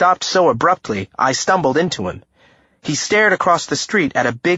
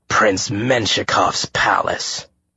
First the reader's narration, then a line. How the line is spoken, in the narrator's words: Bess muttered